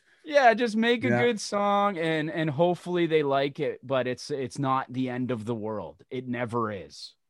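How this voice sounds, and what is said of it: Whiny, unusual voice. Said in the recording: “I know I have a weird voice. I know I have like a whiny. ... A unique voice.”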